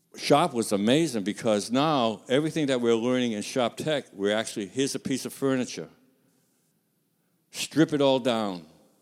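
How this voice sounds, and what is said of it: Non-native English accent. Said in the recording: “You can probably tell by my accent, English is still tough on me.”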